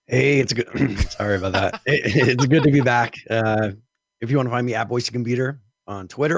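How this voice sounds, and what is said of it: Raspy, scratchy voice. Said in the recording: “With a very raspy voice ... with a cold, a virus ... I do have a scratchy voice”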